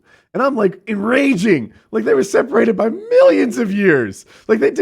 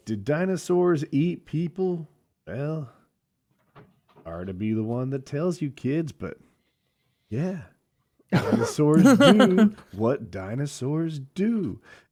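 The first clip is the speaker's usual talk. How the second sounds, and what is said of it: Put-on Southern accent. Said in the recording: “this guy in the southern accent was like”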